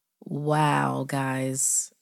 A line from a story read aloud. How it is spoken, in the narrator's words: Nate laughed, trying to sound as if he wasn't about to wet himself